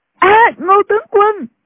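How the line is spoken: Girls crying out. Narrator (Vietnamese): Hai thiếu nữ đồng thời kêu lên, một cô gọi

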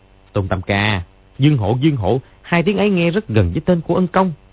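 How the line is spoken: Sudden loud cry. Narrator (Vietnamese): Gã họ Trần có vẻ thất vọng, đột nhiên kêu to

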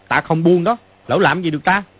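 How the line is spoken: Angry, pained shout. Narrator (Vietnamese): Mã Quan Tá rất khó chịu, cũng tức giận mà quát lên

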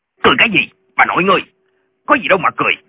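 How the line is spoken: Official's shout. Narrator (Vietnamese): Viên quan lại quát lên

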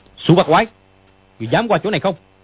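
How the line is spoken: Shout. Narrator (Vietnamese): Dương Quá quát

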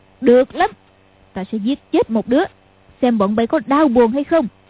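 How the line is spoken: Shouting. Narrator (Vietnamese): Lý Mặc Sầu quát lên

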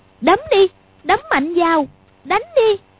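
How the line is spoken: Sudden cry, stung. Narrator (Vietnamese): Quách Phù thấy hai đứa đánh dữ cũng hơi sợ, nhưng sờ lên mặt thấy nóng rát vì cái tát vừa nãy thì bất giác kêu lên

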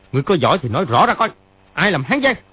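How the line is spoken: Angry shout. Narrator (Vietnamese): Triệu Chí Kính sa sầm mặt, y quát lên

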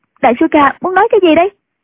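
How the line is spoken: Loud. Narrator (Vietnamese): Nhạc Linh Sang lớn tiếng nói

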